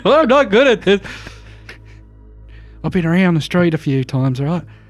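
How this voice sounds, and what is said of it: Put-on Australian accent. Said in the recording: “Why am I Australian all of a sudden? ... I told you to not forget your accent”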